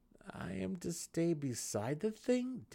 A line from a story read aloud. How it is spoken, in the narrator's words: Dinan gasped